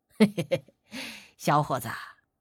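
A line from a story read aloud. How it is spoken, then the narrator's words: Old man chuckling. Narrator (Chinese): 那老头却嘿嘿一笑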